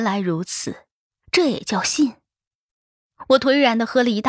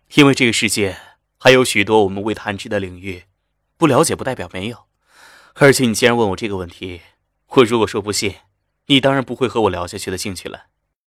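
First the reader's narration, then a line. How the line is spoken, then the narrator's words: Calm, faint smile. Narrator (Chinese): 夏医生淡淡的笑了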